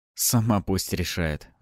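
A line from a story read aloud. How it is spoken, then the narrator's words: Sigh. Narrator (Russian): вздохнул я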